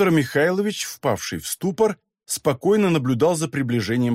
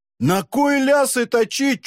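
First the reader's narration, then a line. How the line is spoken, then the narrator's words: Nearly shrieking. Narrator (Russian): чуть не взвизгнул Матвей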